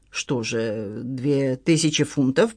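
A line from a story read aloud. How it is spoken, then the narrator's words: Muttering. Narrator (Russian): пробормотал Джон Ивлин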